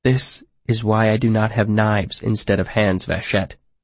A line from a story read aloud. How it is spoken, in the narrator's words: I said quietly